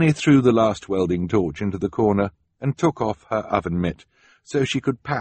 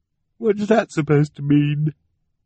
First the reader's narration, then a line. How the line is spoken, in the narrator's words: Violet said miserably